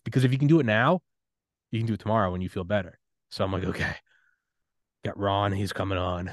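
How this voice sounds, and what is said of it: Congested, tired voice with a cold. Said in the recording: “I have a cold right now, the NyQuil's kicking in, my eyelids are heavy”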